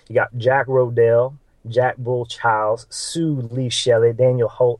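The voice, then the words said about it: Put-on Southern drawl. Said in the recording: “sound really Southern, so I'm going to read them in a little Southern accent, because you get a lot of that Southern drawl.”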